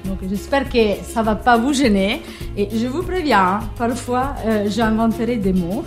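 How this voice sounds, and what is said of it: Light Italian accent in French. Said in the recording (French): “j'ai un petit accent. Il ne s'agit pas d'un accent normand ni d'un accent breton, c'est un accent un peu ensoleillé qui vient de l'Italie”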